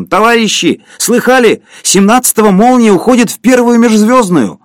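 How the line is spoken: Distant ringing tenor shout. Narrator (Russian): Кто-то в другом конце зала крикнул звонким тенором

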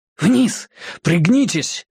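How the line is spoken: Urgent hiss. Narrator (Russian): зашипел Мэтью

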